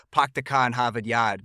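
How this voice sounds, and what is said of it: Boston accent, dropped R's. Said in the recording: “she's not really pronouncing her R's ... my kid's got a natural Boston accent right now”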